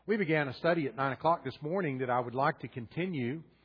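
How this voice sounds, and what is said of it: Southern US accent. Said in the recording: “You're obviously not from the north. ... my accent”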